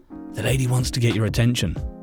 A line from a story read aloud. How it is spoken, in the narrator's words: the woman muttered